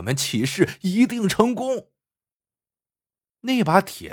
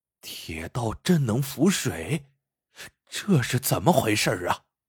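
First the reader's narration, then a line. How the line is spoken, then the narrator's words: Excited. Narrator (Chinese): 吕仁旺却兴奋异常 说道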